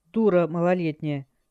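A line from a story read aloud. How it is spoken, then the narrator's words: Commander's rude reply. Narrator (Russian): грубо ответил командир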